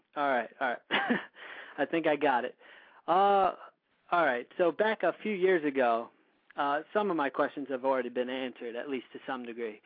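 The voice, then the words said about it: Hoarse, fading voice. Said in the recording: “Let me clear my throat. My voice is going a little bit”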